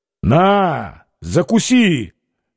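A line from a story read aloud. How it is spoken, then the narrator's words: Sudden shout. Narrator (Russian): вдруг крикнул ему Петр Алексеевич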